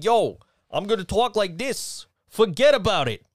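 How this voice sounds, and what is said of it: Put-on New York accent. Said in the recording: “not the part of New York that's like”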